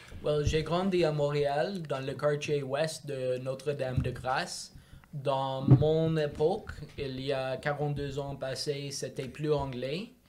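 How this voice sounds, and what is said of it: Speaks French with an accent. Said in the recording (French): “vous allez entendre que ... parle avec un accent”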